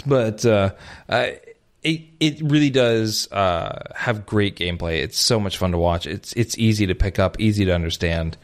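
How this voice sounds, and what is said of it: Hoarse, failing voice. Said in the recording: “Pardon me, I'm losing my voice there for a second ... leftovers from being sick for nearly two damn months”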